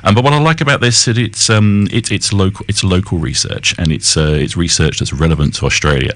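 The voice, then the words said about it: Non-Australian accent. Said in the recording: “someone that has an accent from the outside Australia”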